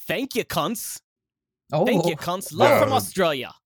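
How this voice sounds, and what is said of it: Put-on Australian accent. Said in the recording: “can I have a line of you doing an Australian accent with that review?”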